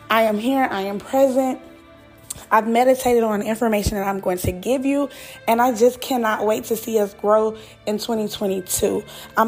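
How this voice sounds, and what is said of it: Hoarse, fading voice. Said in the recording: “I don't sound as upbeat ... I am losing my voice”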